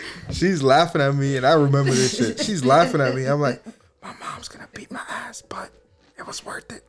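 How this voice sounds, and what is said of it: Usual voice. Nothing is said of it.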